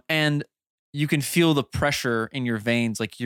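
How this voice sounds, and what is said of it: Usual voice. Nothing is said of it.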